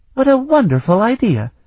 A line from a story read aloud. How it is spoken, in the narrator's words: Danae exclaimed